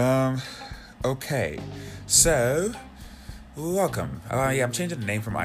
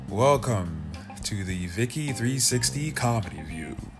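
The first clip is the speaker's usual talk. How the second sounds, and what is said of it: Put-on radio announcer voice. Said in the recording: “that's my radio voice ... That's my radio voice ... I got a radio voice”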